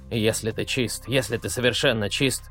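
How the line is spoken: Old man muttering. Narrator (Russian): бормотал старик

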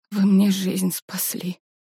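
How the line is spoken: Female mumble. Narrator (Russian): пробормотала она

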